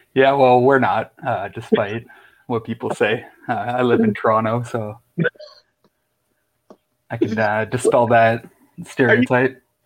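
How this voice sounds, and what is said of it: Thick Canadian accent. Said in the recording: “my thick Canadian accent... I love the Canadian accent.”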